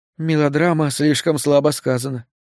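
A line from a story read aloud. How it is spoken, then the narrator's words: Sad, smiling. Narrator (Russian): печально улыбнулась Натали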